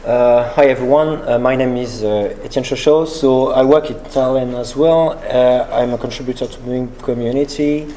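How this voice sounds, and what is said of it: Slight French accent. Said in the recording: “this little Frenchy accent of mine”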